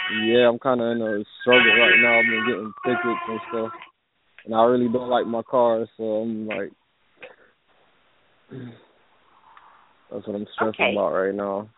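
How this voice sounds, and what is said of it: Muffled voice. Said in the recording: “You sound a little muffled”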